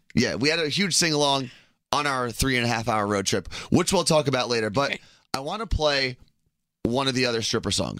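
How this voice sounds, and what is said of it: Slightly raspy voice. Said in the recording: “our voices are a little raspy right now”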